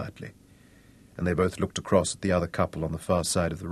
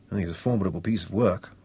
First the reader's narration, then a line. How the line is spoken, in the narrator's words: Blaine grunted